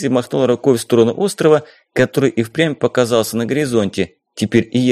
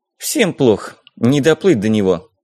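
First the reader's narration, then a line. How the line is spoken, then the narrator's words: Sighing. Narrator (Russian): Дейзи вздохнула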